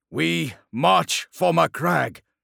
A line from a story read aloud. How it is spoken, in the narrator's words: shouted the assembled warriors, ultramarine and human alike